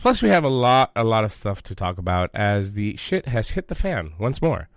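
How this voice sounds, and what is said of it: Sick, under-the-weather voice. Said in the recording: “As you can tell by my voice, I'm a little bit under the weather”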